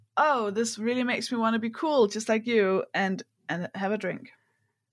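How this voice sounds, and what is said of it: Sarcastic delivery. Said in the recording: “That's sarcasm. I'm being sarcastic.”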